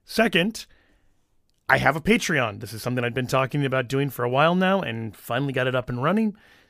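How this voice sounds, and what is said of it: Hoarse, strained voice. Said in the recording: “my voice is a little bit shot. I lost my voice ... if the sound is a little weird today”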